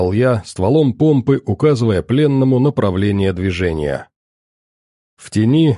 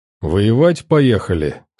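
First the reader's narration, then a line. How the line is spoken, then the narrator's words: Calm question. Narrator (Russian): спокойно поинтересовался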